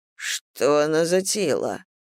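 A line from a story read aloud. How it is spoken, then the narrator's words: Mutter. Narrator (Russian): пробормотал Фальк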